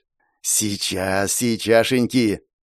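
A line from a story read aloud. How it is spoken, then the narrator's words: Whisper. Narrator (Russian): шептал профессор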